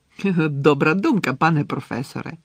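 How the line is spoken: Fawning exclamation. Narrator (Ukrainian): по-підлабузницькому вигукнув Ерні

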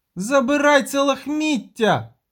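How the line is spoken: Shrieked. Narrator (Ukrainian): заверещала

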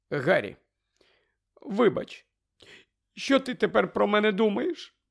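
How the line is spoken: Moaning, trembling voice. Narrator (Ukrainian): Простогнала вона тремтячим голосом

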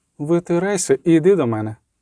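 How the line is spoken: Cold. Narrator (Ukrainian): сказала холодно

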